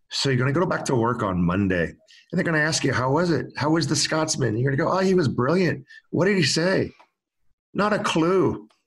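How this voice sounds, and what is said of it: Attempted Scottish accent, sounds Irish. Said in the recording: “I'm going to try and do a Scottish accent. It's going to come off Irish”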